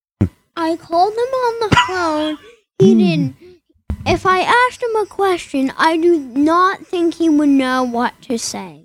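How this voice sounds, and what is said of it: Child's Donald Trump impression. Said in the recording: “my Donald Trump impression ... That's Donald Trump, ladies and gentlemen”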